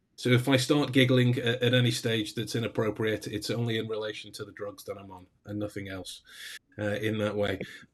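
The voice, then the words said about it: Sick, slightly odd-sounding voice. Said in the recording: “I sound a little weird. ... I actually have COVID at the minute, so I'm doing my best to cough up everything that I can in order to allow me to actually talk.”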